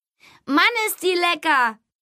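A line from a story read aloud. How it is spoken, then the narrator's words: Called out. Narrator (German): rief Tom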